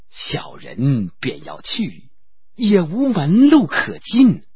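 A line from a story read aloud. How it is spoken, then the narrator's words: Sighing. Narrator (Chinese): 石秀叹口气道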